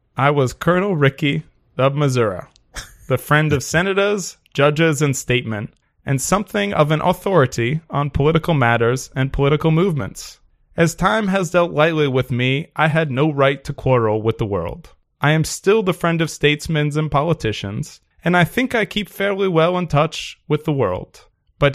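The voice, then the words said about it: Put-on Confederate Southern accent. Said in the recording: “Don't mind my Confederate accent here”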